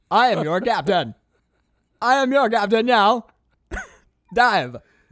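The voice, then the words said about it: Strange robotic toy-like accent. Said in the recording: “my accent sounds so strange ... It's like the accent of a speaking spell”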